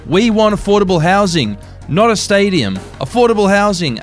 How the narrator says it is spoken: a man shouted from the crowd

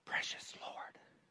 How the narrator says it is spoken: she whispered into his ear

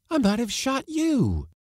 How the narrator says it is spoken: she exclaimed

